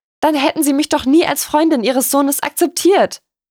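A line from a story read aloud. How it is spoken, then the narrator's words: Called out. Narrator (German): rief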